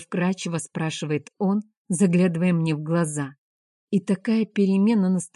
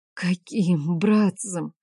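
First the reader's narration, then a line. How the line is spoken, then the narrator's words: Hoarse, frightened whisper. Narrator (Russian): Сиплым от страха голосом шепчу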